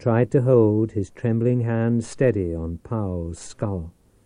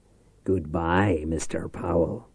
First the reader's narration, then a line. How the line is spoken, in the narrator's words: Reich muttered